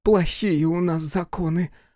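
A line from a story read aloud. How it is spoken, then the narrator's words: Sighing. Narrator (Russian): вздохнула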